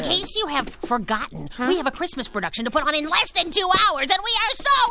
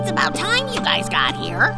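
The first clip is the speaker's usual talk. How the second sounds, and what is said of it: Grumpy miserly old man voice. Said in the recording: “excellent impersonation of Mr. Scrooge”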